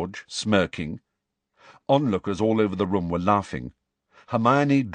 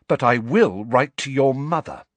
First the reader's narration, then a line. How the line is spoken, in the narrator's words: she said, her voice quivering with anger